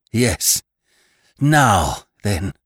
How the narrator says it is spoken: gasped Annie at length

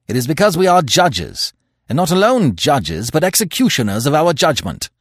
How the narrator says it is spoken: said Manfred harshly

